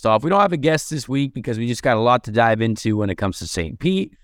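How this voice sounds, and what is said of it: Hoarse, strained voice. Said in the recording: “I also lost my voice over the weekend”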